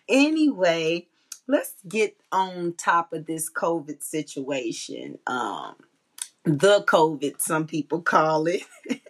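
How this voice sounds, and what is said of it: Raspy voice. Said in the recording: “My little raspy voice.”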